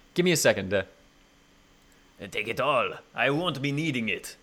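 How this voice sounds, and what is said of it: Thick warm put-on French accent. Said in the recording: “It's pretty thick. It's a very thick French accent, ... It's kind of warm. It's not like my really cartoony ... Neither of us are perfect on our French accents.”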